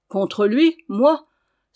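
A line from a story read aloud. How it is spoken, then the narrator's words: Sincere exclamation. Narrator (French): s'écria Gueffès de la meilleure foi du monde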